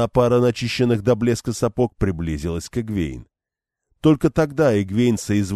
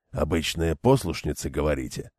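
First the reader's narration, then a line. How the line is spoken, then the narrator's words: Muttering. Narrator (Russian): пробормотал он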